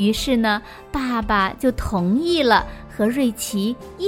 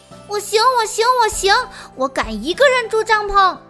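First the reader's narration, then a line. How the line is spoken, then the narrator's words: Loud. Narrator (Chinese): 瑞奇大声地说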